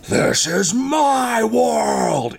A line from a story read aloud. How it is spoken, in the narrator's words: it just yells in classic Agent Smith fashion